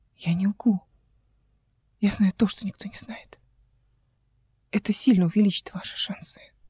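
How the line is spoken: Tearful woman. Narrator (Russian): сквозь слезы сказала женщина

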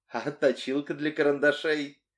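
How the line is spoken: Laughing. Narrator (Russian): Кристи уже смеялась

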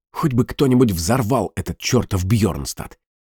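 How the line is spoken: Muttering. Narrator (Russian): пробормотал Тобиас

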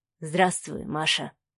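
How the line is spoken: Quiet. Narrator (Russian): тихо произнес Савелий

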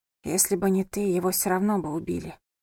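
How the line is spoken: Whisper. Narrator (Russian): прошептала она

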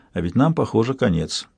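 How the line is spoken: Quiet. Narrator (Russian): Она негромко сказала

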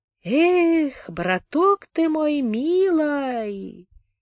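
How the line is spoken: Singsong. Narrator (Russian): сказал нараспев

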